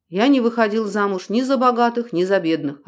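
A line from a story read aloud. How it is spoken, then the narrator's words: Plain. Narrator (Russian): ответил Дронго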